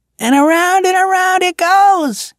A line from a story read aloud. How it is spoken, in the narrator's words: shouted the boy